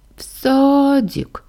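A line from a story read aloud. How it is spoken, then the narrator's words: Sleepy groan. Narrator (Russian): простонала мелочь, не открывая глаз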